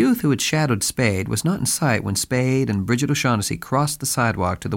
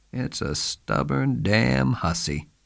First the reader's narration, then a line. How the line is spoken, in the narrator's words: he said sadly